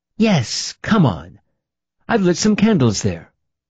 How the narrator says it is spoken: said excitedly

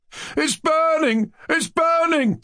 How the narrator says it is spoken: they all cried with one voice

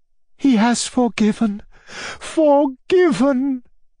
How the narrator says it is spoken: cried Anna Andreevna

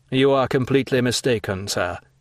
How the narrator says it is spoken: said Monte Cristo coldly

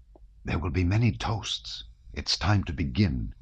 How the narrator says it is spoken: he whispered

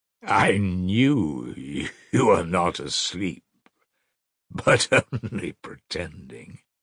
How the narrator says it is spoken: the stranger answered oddly, laughing calmly

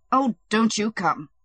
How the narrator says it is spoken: said the sick man angrily

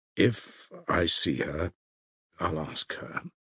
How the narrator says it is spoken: Alyosha muttered, embarrassed

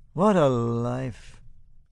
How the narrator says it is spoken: he says dreamily

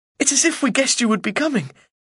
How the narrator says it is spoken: laughs my sister

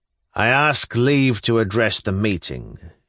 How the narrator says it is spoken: Shigalyov pronounced sullenly but resolutely

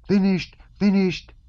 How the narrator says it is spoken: little Natasha's gleeful yell rose above them all

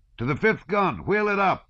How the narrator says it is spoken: came shouts from one side

